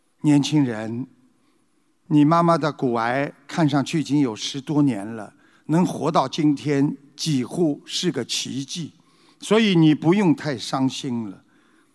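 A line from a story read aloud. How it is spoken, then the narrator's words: Gentle, soft. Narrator (Chinese): 医生看着悲痛欲绝的儿子，轻声地说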